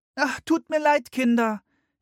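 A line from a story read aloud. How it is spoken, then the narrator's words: Mother calling from inside. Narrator (German): rief ihre Mutter von drinnen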